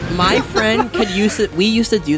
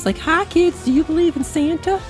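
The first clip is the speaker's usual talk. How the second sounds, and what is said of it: High creepy old man voice. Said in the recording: “the voice line from Family Guy with the old man that like creeps on ... like he does that high like, ... do that voice”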